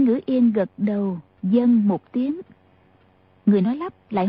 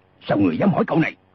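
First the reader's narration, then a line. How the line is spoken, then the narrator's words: Angry loud shout. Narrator (Vietnamese): Ô lão đại nổi giận quát lớn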